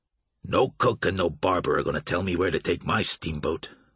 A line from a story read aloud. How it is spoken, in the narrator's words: Abner Marsh said sternly